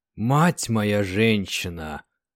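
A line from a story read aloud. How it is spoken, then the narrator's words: Sergeant muttering. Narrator (Russian): пробормотал сержант Синенко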